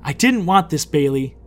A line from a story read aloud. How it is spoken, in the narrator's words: Lydia yelled